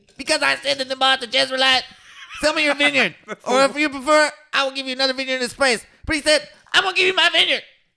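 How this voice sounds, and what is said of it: Imitates a cartoon character's voice. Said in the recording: “gotta do my Eric Cartman voice ... Bad impressions are funny”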